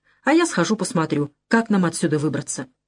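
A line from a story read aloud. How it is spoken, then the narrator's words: Calm. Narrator (Russian): сказал спокойно Мали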